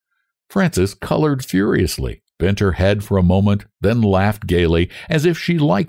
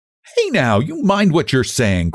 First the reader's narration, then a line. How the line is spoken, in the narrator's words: cried Anne